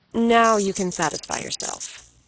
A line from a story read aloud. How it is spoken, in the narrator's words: said the doctor